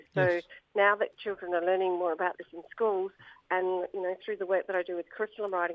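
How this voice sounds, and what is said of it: Croaky, rough voice. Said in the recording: “my voice is a bit croaky today”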